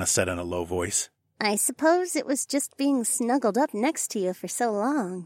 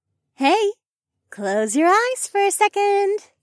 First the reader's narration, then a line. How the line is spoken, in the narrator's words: Rachel said in a playful voice